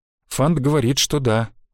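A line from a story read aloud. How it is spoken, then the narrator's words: Sigh. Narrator (Russian): вздохнула Араэля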